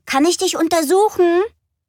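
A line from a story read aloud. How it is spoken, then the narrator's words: Called out. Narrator (German): rief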